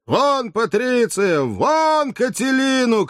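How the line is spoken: Ten voices shouting together. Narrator (Russian): крикнули разом 10 голосов

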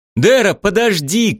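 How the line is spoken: Shouted. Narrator (Russian): крикнул Шем

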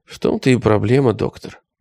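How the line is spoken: Very quiet answer. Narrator (Russian): ответил он очень тихо

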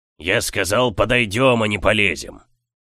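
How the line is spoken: Growl. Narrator (Russian): прорычал Камаргас

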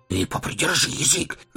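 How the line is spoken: Jailer's hiss. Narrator (Russian): зашипел на предводителя один из тюремщиков

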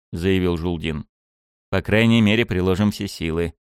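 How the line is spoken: Gloomy remark. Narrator (Russian): мрачно заметил я

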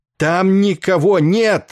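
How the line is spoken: Sudden roar, close by. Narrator (Russian): внезапно взревел у него над ухом Денбор

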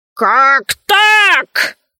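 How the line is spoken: Shout. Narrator (Russian): закричал

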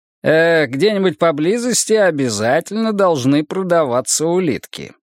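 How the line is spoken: Plain. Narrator (Russian): сказал он

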